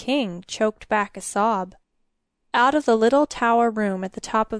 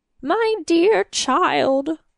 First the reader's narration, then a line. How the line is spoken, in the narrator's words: the king sobbed